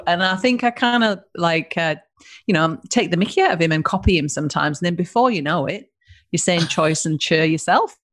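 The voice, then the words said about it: Northern English accent. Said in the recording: “I actually thought you sounded mixed between New Zealander and South African ... So I'm a northerner, so most British accents are, you know, from down south. So mine's a little bit different.”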